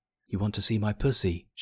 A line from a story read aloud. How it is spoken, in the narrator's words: she whispered